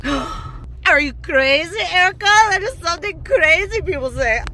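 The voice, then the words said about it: Unclear put-on accent, not very good. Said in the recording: “I'm not sure what accent I was just doing there. It wasn't very good.”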